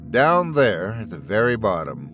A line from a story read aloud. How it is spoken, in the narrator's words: Emma laughs